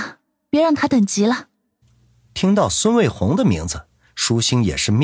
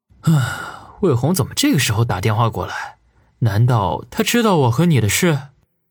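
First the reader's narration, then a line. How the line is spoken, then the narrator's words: Private muttering. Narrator (Chinese): 他暗暗嘀咕道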